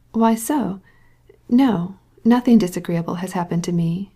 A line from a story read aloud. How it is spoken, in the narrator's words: she said coolly